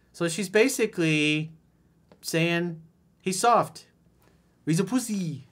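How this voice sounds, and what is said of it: Put-on feminine Brazilian accent. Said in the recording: “In my Brazilian feminine accent.”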